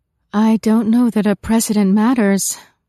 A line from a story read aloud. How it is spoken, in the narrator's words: said with a sigh